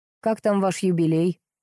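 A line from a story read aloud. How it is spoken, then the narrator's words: Even-toned question. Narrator (Russian): ровным тоном поинтересовался он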